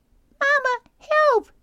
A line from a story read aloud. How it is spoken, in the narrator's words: squeaked Brightbill